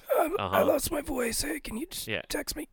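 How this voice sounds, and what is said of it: Faked raspy voice. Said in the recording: “faked having a raspy voice”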